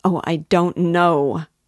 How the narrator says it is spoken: cried Sonia, almost in despair

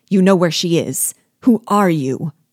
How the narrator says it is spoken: cried I

